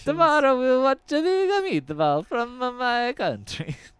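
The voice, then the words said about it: Exaggerated stereotyped Italian accent. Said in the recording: “your terrible impersonations... Possibly racist impersonations... that really insensitive accent... weird Italian stereotypes”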